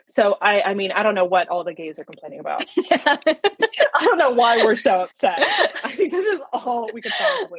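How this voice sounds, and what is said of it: Deadpan sarcastic delivery. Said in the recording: “I say things like so deadpan ... We need like a noise for like sarcasm”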